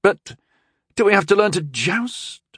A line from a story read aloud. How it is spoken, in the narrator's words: Rondel asked anxiously